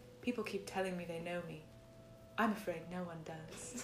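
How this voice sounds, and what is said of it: Forlorn put-on British accent. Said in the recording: “I haven't done a British accent. ... I tried to make her sound very forlorn. ... Very forlorn.”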